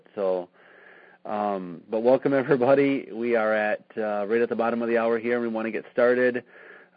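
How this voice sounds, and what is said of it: Hoarse, strained voice. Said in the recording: “hoarse voice. I was at Cedar Point Amusement Park all day today screaming on a roller coaster, so I'm losing my voice a little bit”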